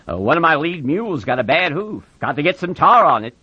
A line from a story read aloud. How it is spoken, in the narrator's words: Slim said loudly